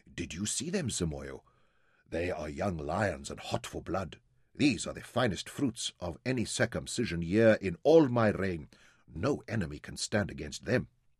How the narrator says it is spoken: he said softly to Jim

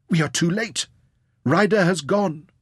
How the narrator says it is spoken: she cried to Nazira

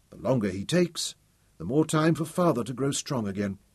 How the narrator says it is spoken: Tom whispered

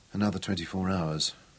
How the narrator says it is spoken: whispered aloud

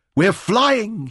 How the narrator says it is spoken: shouted into the wind

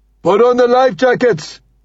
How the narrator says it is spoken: shouts

